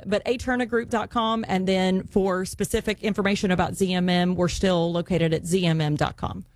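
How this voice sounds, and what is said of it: West Virginia accent. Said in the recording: “My West Virginia accent”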